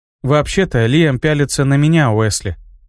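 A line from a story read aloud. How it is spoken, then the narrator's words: Sighing. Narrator (Russian): вздохнула Тисса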